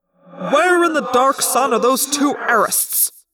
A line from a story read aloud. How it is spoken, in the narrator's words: the tactical officer, Prince Nescord, bellowed